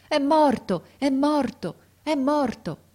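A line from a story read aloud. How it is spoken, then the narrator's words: Frantic woman's intermittent shouts. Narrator (Italian): una donna con un bimbo in braccio che pareva pazza e gridava di tratto in tratto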